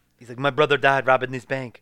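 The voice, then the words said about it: Poor attempt at French accent. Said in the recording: “I cannot do the French accent. I'm going to stop trying.”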